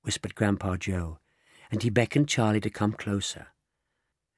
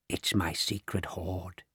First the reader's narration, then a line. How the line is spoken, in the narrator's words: he whispered